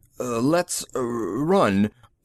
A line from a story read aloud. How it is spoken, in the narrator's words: he faltered